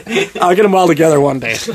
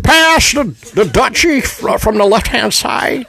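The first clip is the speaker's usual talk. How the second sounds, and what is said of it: Jimmy Stewart impression sounding like Bane. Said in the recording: “I want you to do a Jimmy Stewart. ... Now you started a little bit like Bane. That was a Bane impression.”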